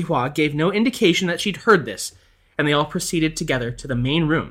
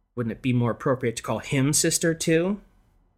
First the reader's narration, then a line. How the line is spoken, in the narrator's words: mutter bitterly